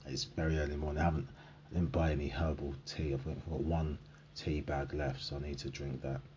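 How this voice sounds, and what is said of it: Low, gravelly morning voice. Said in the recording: “You can hear the voices going a bit more. ... I'm talking in a low voice. ... it's not woken up yet. That's why it's a low gravelly grumble.”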